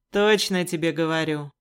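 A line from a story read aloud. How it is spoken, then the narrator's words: Snort. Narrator (Russian): хмыкнул водник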